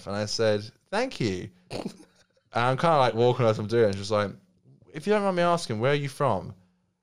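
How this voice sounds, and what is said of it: English accent from north of London. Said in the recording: “what beautiful face that beautiful accent was coming through ... wow, what a beautiful accent you have ... I moved here when I was 8, but I was like north of London ... that's the most beautiful accent I've ever heard”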